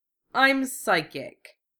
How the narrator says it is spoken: Wufei sneered, keeping his voice low

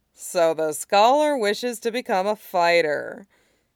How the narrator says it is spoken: he drawls, grinning

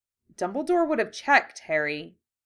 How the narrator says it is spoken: Hermione said in a reasonable tone

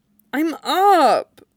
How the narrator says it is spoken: Brian said, with only a slight groan

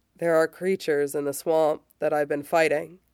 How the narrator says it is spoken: John says

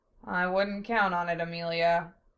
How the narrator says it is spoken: Zell said dryly

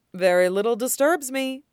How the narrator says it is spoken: says cheerfully

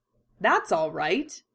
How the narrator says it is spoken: Kakashi says cheerfully

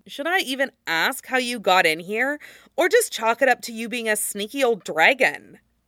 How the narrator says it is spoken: Iroh chuckled

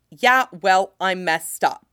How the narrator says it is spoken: he snaps, real anger beginning to rise

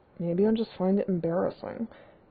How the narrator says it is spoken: Derek mutters

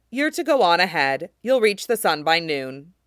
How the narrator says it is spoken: told him coldly

